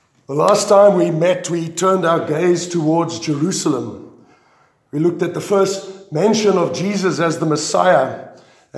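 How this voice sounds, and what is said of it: Strained voice cutting in and out. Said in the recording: “My voice is probably going to come and go”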